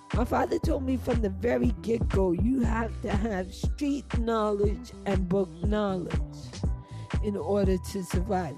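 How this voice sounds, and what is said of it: Jamaican accent coming through. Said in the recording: “You hear the Jamaican accent coming out? Because I'm preaching.”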